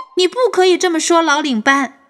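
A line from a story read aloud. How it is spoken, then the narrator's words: Shouting. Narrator (Chinese): 莉莉在后面大喊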